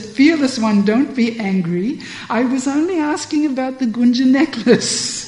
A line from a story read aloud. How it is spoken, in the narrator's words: Vishakha laughs and says